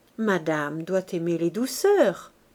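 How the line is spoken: Murmur. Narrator (French): murmura-t-il

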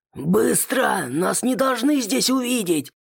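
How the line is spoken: Leader roaring. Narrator (Russian): Взревел главный

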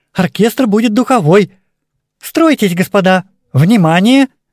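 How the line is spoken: Loud commanding. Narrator (Russian): По привычке начала она громко командовать

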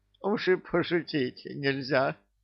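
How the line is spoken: Whining in normal voice. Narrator (Russian): уже нормальным голосом захныкал его бессмертие

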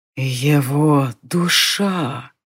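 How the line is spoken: Chilling, rustling whisper. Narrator (Russian): прошептал, и от шелестящего шепота воздух вдруг словно еще больше похолодел

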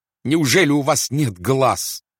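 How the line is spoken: Astronomer shouting. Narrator (Russian): кричал астроном

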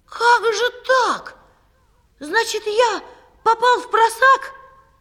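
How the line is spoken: Shouted. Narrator (Russian): Павлик крикнул

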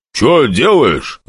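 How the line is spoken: Demon's growl. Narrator (Russian): рыкнул демон

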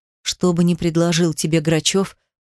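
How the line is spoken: Wheezing while moving. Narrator (Russian): просипел я, не останавливаясь

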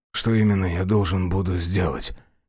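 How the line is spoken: Hoarse question. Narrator (Russian): хрипло спросил Йергерт

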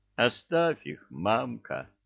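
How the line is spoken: Mournful growl, she-bear. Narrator (Russian): Горестно прорычала медведица

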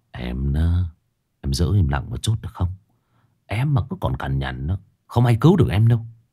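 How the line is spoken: Man muttering. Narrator (Vietnamese): Tay Kiệt lùi lại phía sau, nhìn con Ả Mi lẩm bẩm

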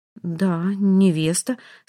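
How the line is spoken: Slightly trembling voice. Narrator (Russian): слегка дрожащим голосом уточняет Сура

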